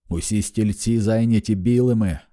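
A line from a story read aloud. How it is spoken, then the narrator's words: Exclaiming. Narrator (Ukrainian): вигукнув містер Тагомі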